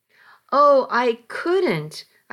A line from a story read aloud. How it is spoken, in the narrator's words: I found myself gasping